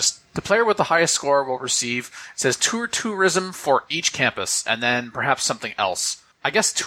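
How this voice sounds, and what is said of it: Usual voice. Nothing is said of it.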